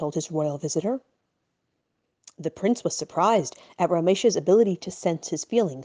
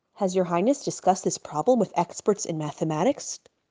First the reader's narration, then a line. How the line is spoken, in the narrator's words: asked Reb Moshe